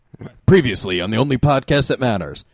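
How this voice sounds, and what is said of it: Dramatic announcer voice. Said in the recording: “Do best announcer voice.”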